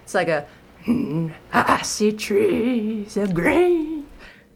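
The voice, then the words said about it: Low gravelly singing impression. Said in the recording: “I do a really bad Louis Armstrong impression ... it's kind of damaging to a voice when you try to go that lower gravelly”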